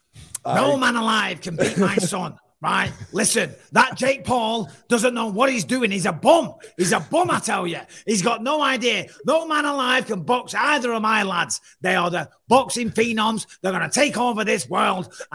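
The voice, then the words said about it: Imitates another person's voice. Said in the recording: “a pretty good John Fury impression ... That sounds like every one of the Furies. All the Furies sound the same.”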